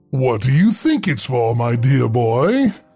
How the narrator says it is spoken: The librarian's voice boomed with a chuckle

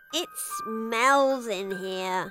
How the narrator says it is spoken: Poppy moaned

